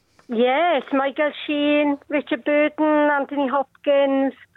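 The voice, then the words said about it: Welsh accent. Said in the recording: “Is it the accent that gives it away, maybe? ... It was the accent. ... whereabouts in Wales?”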